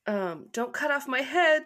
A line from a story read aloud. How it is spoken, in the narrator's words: she cried